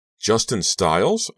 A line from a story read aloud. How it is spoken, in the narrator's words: I couldn't help exclaiming